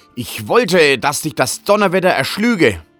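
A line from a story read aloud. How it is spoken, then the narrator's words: Angry shepherd screaming. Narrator (German): wurde der Hirt zornig und schrie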